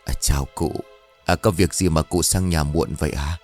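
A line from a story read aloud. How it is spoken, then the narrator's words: Probing questioning. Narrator (Vietnamese): ông Đồ căn vặn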